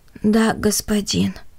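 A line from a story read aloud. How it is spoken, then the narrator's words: Weary. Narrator (Russian): устало произнес Гиацинт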